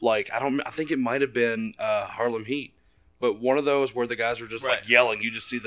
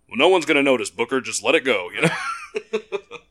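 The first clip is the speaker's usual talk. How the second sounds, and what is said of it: Bad Gene Okerlund impression. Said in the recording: “Terrible Okerlund impersonation.”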